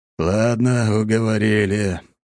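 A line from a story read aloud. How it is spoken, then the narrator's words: Grumbled. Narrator (Russian): проворчал Лажон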